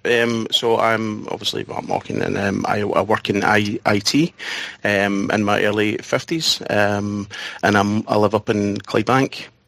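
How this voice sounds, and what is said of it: Strong Scottish accent. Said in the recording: “you have got a very Scottish-sounding accent.”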